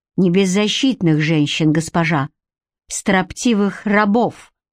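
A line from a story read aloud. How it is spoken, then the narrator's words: Furious growl. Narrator (Russian): в бешенстве прорычал Гарик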